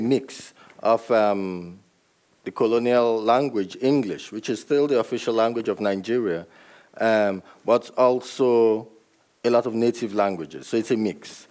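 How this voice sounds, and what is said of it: Distinctive Nigerian English accent. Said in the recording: “Nigerian English, which is what I speak ... It comes with a distinctive Nigerian accent”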